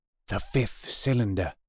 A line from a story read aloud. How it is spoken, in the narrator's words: I whispered